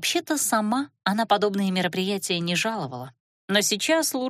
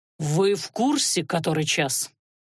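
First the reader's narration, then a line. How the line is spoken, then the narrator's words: Displeased growl. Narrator (Russian): недовольно рыкнул магистр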